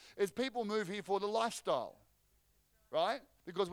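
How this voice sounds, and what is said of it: Usual voice. Nothing is said of it.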